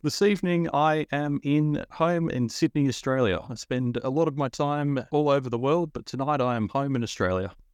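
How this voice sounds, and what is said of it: Slight non-native accent. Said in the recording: “We're hearing a bit of an accent here”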